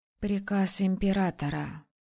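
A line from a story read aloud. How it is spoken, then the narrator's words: Sad exhale. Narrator (Russian): грустно выдохнула я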